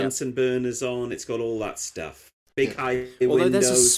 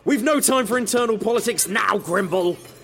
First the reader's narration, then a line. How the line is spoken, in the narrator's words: Harris snapped